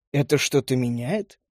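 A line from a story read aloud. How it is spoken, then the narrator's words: Mocking question. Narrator (Russian): насмешливо спросил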